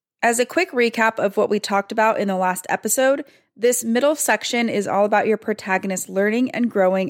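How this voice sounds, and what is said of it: Froggy, hoarse recovering voice. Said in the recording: “my voice is a little froggy, and that's because I'm just getting over bronchitis and my voice is still not up to its normal capabilities”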